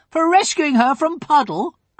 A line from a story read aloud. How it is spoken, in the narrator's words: cried Mark